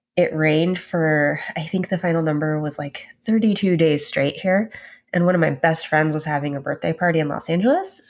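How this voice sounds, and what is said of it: Sick, rough voice. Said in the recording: “apologize for my voice ... I seem to have brought the plague back ... Just loaded up on cough medicine and Sudafed”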